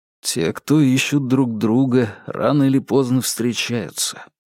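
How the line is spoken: Sad, smiling. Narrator (Russian): он грустно улыбнулся

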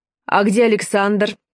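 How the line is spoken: Plain question. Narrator (Russian): спросил он

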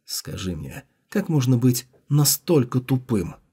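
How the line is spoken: Muttering to himself. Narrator (Russian): Джао Юньлань пробормотал про себя

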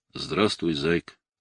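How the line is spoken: Calm, businesslike. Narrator (Russian): Спокойно и деловито он сказал

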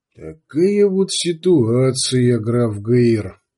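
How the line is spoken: Expressionless, through clenched teeth. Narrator (Russian): Без выражения процедил барон Абданг

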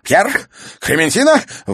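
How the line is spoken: Horrified exclamation. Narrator (Russian): в ужасе воскликнул он, увидев пришельцев

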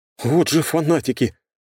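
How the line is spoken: Admiring exclamation. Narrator (Russian): с нескрываемым восхищением воскликнул Фригейл

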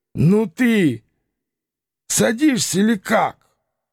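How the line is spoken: Drunken wheezy rasp. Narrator (Russian): пропитый голос, обладатель которого явно был навеселе, просипел

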